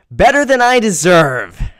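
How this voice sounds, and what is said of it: Imitates another person's voice. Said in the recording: “I am copying David”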